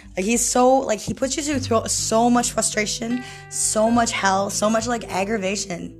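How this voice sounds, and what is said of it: Hoarse, strained voice. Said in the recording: “I screamed so much one time that I lost my voice ... So that's why my voice is out right now”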